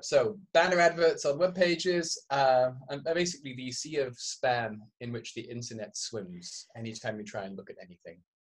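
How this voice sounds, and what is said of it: Hybrid transatlantic English-Canadian accent. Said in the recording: “Canadian accent ... It's like the mushy hybrid mongrel transatlantic accent with sort of little bits of English mushed with little bits of Canadian.”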